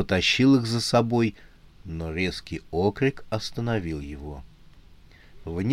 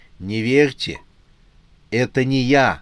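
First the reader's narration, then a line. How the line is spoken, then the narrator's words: Shouting man. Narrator (Russian): закричал тот, другой цыган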